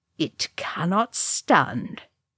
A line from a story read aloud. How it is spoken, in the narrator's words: he said in a low, hard voice